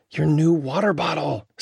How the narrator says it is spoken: sighed Emmett

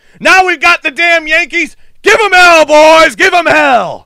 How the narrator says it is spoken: a man scream

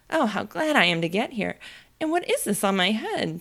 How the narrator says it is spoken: she exclaimed in a tone of dismay

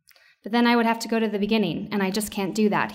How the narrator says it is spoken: he replied

